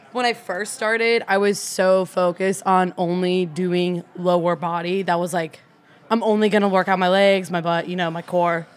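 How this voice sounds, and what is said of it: Out of breath, breathy speech. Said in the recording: “I'm like out of breath, guys.”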